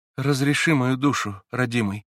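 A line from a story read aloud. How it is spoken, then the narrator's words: Quiet unhurried. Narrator (Russian): Тихо и не спеша промолвила она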